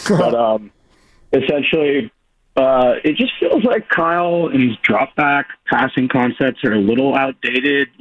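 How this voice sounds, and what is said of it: Hoarse, worn-out voice. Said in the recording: “Sorry, my voice is a little shot from screaming yesterday.”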